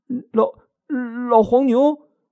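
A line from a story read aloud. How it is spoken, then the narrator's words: Frightened stammering question. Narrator (Chinese): 牛郎吓了一跳，他结结巴巴的问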